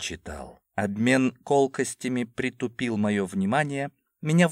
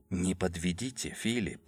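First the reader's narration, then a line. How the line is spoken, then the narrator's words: Whispered in ear. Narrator (Russian): шепнул Джулиус мне на ухо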